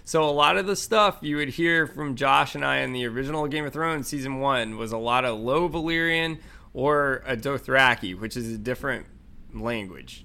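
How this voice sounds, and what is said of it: Georgia Southern American accent. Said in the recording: “I should roll my R's a little more, but I have a Georgia accent.”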